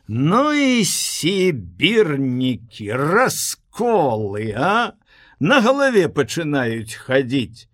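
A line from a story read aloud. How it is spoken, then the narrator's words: Loud and stern. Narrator (Belarusian): Голасна і сурова загаманіў нехта на вуліцы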